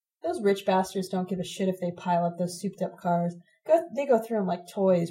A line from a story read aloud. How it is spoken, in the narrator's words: Ron muttered